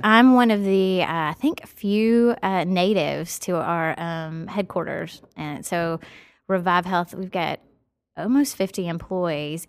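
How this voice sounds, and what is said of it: Noticeable regional American accent. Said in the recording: “So from your accent, you must be from like Canada or? ... A little further south. Nashville.”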